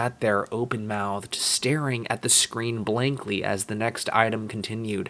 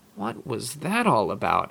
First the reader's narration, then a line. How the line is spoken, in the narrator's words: I muttered to myself